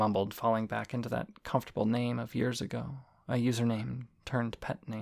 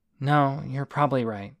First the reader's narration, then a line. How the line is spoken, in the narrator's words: I sighed